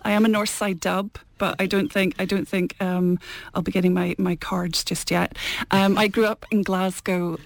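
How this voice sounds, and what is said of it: Glasgow accent. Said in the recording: “You can probably tell from the Glasgow accent.”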